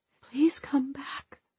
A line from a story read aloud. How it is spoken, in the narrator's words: whispered